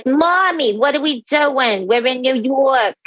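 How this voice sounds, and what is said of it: Imitating a child's thick accent. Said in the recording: “her accent was so thick”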